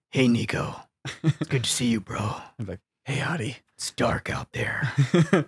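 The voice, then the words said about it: Gruff Snake Plissken voice. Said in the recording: “I will convert this accent into like a more like Snake Plissken mm. gruff dude.”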